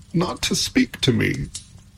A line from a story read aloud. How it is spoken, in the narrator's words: said Pandora, sobbing anew